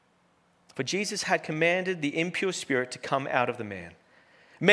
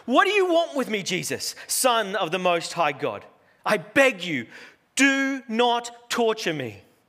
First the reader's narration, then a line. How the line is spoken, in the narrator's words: he cried out, shouting at the top of his voice